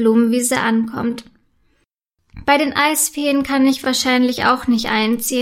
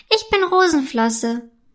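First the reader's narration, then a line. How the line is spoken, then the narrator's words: High squeaky voice. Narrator (German): erzählt weiter in seiner hohen, piepsigen Stimme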